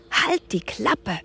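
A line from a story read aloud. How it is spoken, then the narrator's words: Hissing. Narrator (German): zischte Leon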